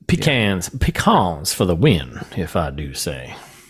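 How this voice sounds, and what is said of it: Put-on Southern American accent. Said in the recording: “that was more of a... House of Cards thing... that Southern... It is a fun accent”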